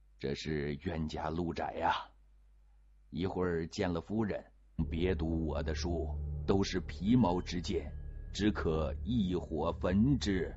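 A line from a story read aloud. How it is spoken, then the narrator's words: Sighing. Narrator (Chinese): 纪晓岚叹息道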